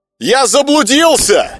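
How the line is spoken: Loud shout. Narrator (Russian): громко прокричал он

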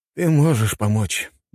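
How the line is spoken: Tired speech. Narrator (Russian): устало проговорил Михаил

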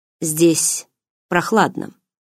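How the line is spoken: Neutral tone. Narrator (Russian): нейтральным тоном произнес Мар Иштхант

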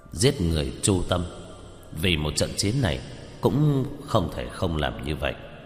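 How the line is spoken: Troubled sighing mutter. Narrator (Vietnamese): Lâm Tam Sinh cau mày thở dài lẩm bẩm

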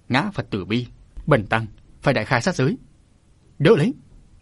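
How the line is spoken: Enraged monk's shout. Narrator (Vietnamese): Thông Hư đại sư cũng thịnh nộ quát

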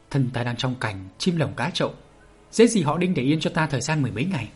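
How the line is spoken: Dazed mutter. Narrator (Vietnamese): Bạch Thiếu Hồng ngẩn người ra lẩm bẩm

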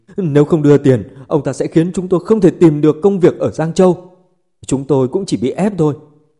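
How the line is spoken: Tearful begging. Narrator (Vietnamese): Mấy người nước mắt nước mũi ròng ròng khóc lóc cầu xin

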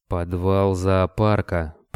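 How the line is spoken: Vampire, through gritted teeth. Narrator (Russian): процедил вампир

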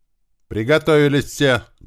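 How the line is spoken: Loud shout. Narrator (Russian): громко крикнул Туман

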